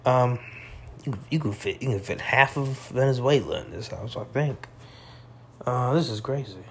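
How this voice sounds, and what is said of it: Out of breath, slightly intoxicated voice. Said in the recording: “Sorry if I sound like I'm out of breath. I'm just a little high, a little drunk ... I wasn't as vibrant as I usually am”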